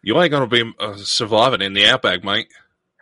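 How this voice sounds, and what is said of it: Put-on Australian accent. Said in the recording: “Well, how did you do that? ... If I'm around Australian people for too long, it'll slip by itself”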